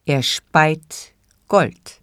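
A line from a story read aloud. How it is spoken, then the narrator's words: Plain answer. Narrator (German): antwortete der Müller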